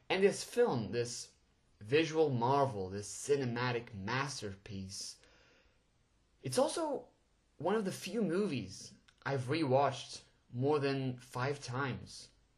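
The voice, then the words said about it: Portuguese accent. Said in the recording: “I'm actually Portuguese, so English is a second language, and well, I'm pretty sure my accent just gave it away.”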